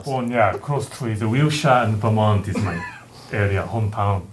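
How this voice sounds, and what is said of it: Weird, hard-to-place accent. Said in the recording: “that's like a weird accent we were talking about earlier ... I can't quite place the accent.”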